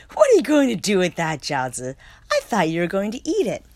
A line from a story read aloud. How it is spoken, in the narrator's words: Popo laughed and said